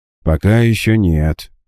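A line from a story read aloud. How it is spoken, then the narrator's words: Heavy sigh. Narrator (Russian): тяжело вздохнув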